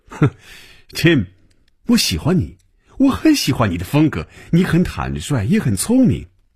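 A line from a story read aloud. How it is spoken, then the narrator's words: Smiling. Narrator (Chinese): 停住了笑声 嘴角仍然带着笑容说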